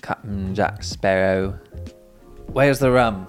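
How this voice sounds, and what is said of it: Captain Jack Sparrow impression. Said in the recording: “Can you do an impression of Captain Jack Sparrow?”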